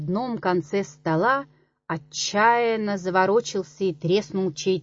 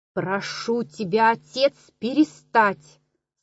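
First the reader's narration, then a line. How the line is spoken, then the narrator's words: Plain. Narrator (Russian): сказала Зина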